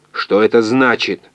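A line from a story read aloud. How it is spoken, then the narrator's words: Angry raised voice. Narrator (Russian): он сердито повысил голос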